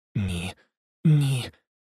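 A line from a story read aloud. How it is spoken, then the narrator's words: Whispered. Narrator (Ukrainian): прошепотіла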